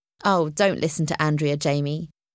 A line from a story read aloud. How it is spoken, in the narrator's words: Zach said